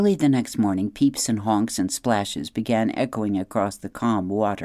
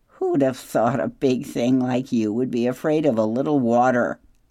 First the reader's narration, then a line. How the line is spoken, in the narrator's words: Loudwing laughed